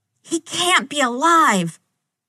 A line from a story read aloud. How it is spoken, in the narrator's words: head spinning, Sam starts to shout